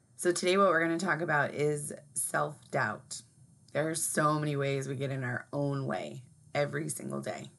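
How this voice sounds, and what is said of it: Hoarse, partly lost voice. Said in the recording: “my voice is a little lost today”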